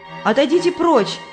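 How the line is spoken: Shouted. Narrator (Russian): крикнула Христиана

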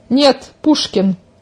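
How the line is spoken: Angry. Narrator (Russian): зло сверкнула взглядом Оленька

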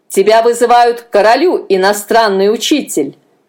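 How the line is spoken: Barked. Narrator (Russian): рявкнул он

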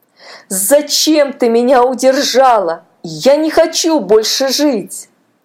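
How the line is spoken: Wailing. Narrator (Russian): Паша завопил

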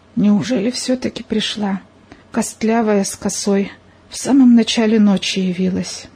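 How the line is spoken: Barely audible whisper. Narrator (Russian): Еле слышно он прошептал

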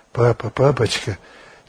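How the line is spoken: Tearful repeating. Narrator (Russian): сквозь слезы повторяла она

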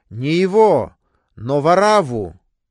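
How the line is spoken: Crowd shouting. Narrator (Russian): закричали все, говоря

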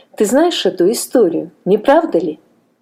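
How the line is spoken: Plain question. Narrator (Russian): спросил он Мартина

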